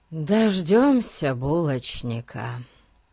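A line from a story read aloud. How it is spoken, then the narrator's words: Sighing. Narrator (Russian): вздохнул Ларри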